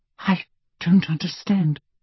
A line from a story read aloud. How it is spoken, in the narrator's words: she whispered